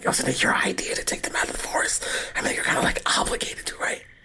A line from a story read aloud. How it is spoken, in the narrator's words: whisper, but really loudly